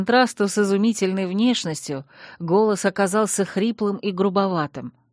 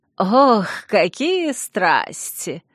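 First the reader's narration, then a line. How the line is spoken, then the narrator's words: Mocking young woman. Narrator (Russian): насмешливо произнесла девушка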